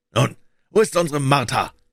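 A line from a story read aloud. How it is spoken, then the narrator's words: Called out. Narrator (German): rief Bob Cratchit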